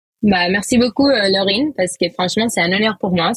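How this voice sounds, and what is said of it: Light sing-song Spanish accent. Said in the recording (French): “elle a un petit accent euh, espagnol chantant, c'est hyper agréable”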